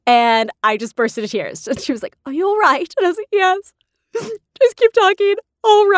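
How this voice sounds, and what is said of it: Usual voice. Nothing is said of it.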